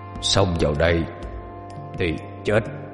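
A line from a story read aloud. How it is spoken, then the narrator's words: Deep, gruff voice. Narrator (Vietnamese): Hắn cất cái giọng ồm ồm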